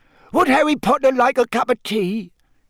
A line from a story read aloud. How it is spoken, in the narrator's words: he squeaked loudly over Winky's sobs